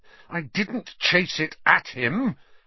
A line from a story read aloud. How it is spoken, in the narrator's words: Harry said, his voice shaking with anger